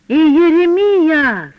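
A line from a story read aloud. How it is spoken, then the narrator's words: Yelled. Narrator (Russian): заорал я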